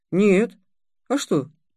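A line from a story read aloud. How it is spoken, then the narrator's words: Innocent boy's question. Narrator (Russian): спросил мальчик невинным тоном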